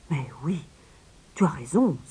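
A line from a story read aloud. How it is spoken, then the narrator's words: King exclaiming. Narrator (French): s'exclama le roi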